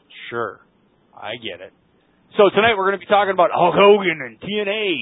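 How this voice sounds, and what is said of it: Usual voice. Nothing is said of it.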